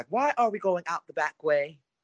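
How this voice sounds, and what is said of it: Bad British accent. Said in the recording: “my bad British accent”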